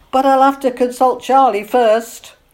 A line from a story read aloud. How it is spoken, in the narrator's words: they all dissolved in laughter as she added